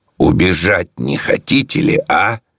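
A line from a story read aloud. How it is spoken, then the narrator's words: Mocking laughing crowd question. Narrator (Russian): люди на площади хохотали над связанными и спрашивали их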